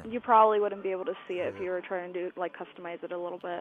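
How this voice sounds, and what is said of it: Australian- or English-sounding accent. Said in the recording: “You have a crazy... You have an accent, though. ... Sounds like you're from Australia. ... I could have sworn you had an Australian accent. Or an English accent.”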